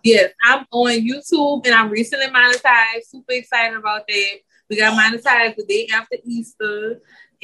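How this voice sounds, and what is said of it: Noticeable regional American accent. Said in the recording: “they love to hear my accent ... I actually let my accent flow versus if I'm trying to like talk about YouTube tips. I try to kind of mask it, but I've noticed now it's not going nowhere”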